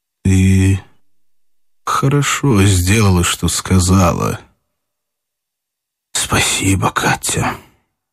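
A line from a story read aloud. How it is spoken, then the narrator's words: Low muffled voice. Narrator (Russian): он проговорил глухо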